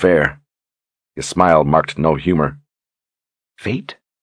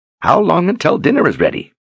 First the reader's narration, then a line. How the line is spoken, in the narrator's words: asked in a cheery tone